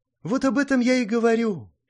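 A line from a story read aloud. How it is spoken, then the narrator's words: Sad sigh. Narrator (Russian): печально вздохнув, сказала Сонг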